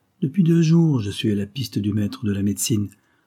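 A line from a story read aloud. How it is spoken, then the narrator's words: Plain. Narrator (French): répondit son sauveur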